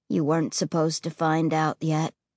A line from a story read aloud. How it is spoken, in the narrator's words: he said, his voice floating low and heavy on the stifling night air